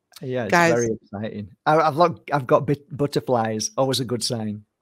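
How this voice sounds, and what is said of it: Manchester English accent. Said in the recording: “that Manchester, UK accent of yours ... I love the dialect. It's a very distinct dialect.”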